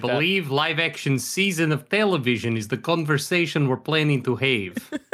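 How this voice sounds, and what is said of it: Old-timey Dracula-like accent. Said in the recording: “I could do the accent for the entire podcast. ... You sound like Dracula, or like an old timey Dracula.”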